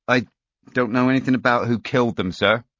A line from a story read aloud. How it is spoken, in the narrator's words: stammered